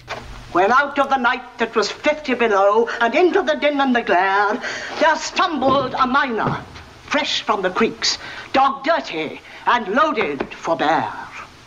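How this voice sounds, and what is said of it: Plummy upper-class English accent. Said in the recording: “she's got this very plummy upper class English accent”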